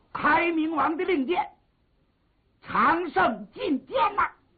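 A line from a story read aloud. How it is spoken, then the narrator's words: Shouting downward. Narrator (Chinese): 王威……往下喊了一声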